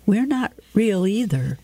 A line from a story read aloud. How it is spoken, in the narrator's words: Juliet says sadly